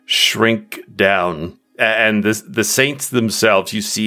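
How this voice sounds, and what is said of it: Usual voice. Nothing is said of it.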